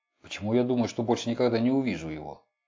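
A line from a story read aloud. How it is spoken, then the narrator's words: Muttering from behind. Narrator (Russian): Сзади забормотал вице-президент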